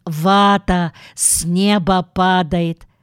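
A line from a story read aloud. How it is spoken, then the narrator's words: Laughing. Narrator (Russian): Джуди расхохоталась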